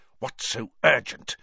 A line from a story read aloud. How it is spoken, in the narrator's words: Snape hiss at Karkaroff